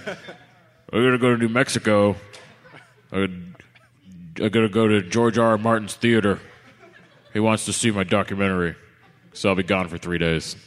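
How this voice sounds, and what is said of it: Impression of a friend. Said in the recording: “Let me do my best Mosher impression.”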